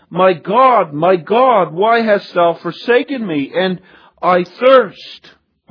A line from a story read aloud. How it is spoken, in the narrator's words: He cried out